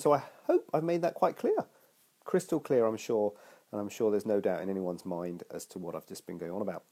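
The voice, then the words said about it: Congested voice with a cold. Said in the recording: “I've got a cold”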